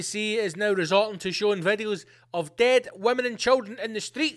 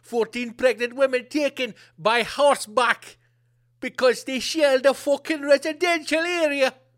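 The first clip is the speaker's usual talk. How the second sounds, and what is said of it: Put-on vaguely Jamaican accent. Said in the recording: “I don't know what that accent is... That's getting a bit Jamaican, man.”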